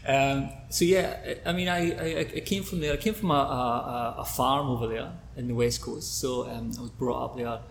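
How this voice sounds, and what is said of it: Scottish accent. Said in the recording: “I'm from Scotland, west coast of Scotland ... Guess you couldn't tell ... the accent.”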